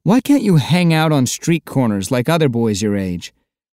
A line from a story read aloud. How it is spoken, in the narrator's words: laughing and saying